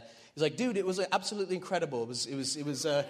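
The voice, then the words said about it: Poor put-on English accent. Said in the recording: “that's like my Euro trash accent. ... I'm from England, not Australia. Like, what is that?”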